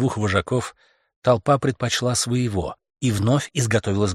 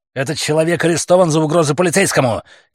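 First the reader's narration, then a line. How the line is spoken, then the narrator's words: Shout. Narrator (Russian): крикнул Стентон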